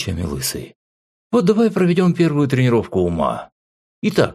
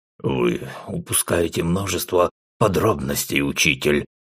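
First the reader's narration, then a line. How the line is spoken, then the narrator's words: Grim interjection. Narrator (Russian): мрачно вмешался Рэм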